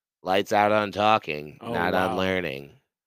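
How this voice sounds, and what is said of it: Impression of a high school teacher. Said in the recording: “do an impression of that teacher? The voice? ... There's only one teacher's voice I think I can do an impression of ... From our high school ... That's so close.”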